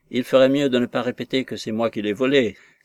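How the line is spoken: Sharp exclamation. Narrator (French): s'écria Jacques Rotney vivement

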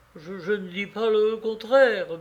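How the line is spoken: Troubled stammering. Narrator (French): balbutia le pauvre diable, troublé par le ton d'Armand

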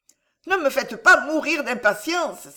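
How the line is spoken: Countess crying out, agitated. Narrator (French): s'écria la comtesse, les mains tremblantes

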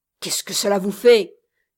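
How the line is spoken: Gruff retort. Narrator (French): répliqua l'ami d'un ton bourru

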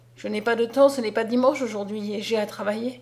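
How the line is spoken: Regretful sigh. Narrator (French): dit-il avec un soupir de regret

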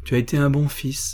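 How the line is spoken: Murmur. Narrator (French): murmura-t-elle

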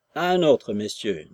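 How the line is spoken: Cold. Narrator (French): dit-il froidement

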